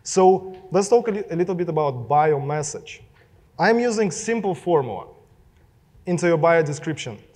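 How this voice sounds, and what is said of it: Russian accent. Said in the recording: “my Russian accent”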